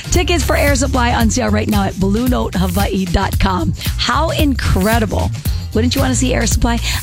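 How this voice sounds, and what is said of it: Out of breath. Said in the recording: “I'm all out of breath from that talking”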